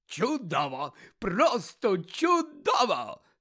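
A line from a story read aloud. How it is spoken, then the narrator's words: Delighted exclamation. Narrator (Ukrainian): захоплено вигукнув Фадж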